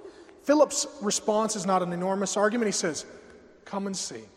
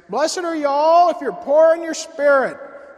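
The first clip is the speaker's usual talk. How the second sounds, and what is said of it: Thick put-on hick accent. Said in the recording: “I told you Jesus spoke with a thick accent. ... it's a hick town.”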